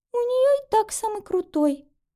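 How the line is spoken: Fading sobs. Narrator (Russian): отвечает Маша, но рыдание в ее словах становится меньше

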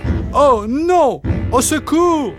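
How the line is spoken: Sudden cry. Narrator (French): s'écria-t-il soudain

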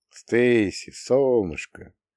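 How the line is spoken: Affectionate. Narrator (Russian): ласково сказала Молли

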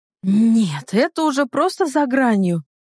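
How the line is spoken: Indignant, through gritted teeth. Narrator (Russian): Возмущенно процедила я

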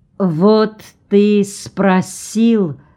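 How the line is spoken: Slow speech. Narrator (Russian): медленно заговорил Орво

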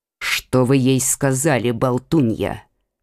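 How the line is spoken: Grumbling older woman. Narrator (Russian): проворчала королева-мать

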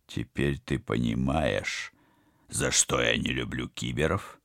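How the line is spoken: Growl. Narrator (Russian): прорычал Вадим

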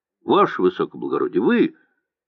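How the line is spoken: Cheerful question. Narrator (Russian): кто-то бодро спросил

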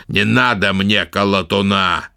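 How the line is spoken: Sharp raised voice. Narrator (Russian): резко ответил нелюдь, повысив голос

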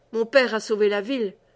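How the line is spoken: Dry, curt voice. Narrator (French): dit Aristide d'une voix sèche

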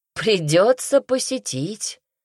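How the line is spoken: Monk's hearty laughter. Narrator (Russian): расхохотался монах

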